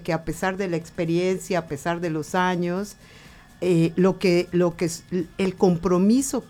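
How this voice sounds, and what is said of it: Yucatecan Spanish accent. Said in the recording (Spanish): “¡ay, qué lindo tu acento! ... hablo yucateco”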